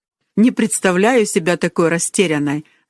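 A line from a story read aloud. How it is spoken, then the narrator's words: Laughing. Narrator (Russian): засмеялась Колин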